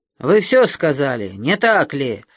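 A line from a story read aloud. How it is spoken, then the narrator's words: Growled. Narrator (Russian): зарычал Гердер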